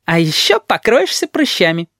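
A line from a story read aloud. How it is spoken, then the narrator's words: Squeak. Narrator (Russian): пискнул Ванючка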